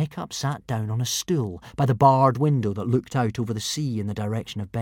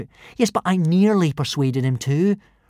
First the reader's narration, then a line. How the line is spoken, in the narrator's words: replied Hiccup eagerly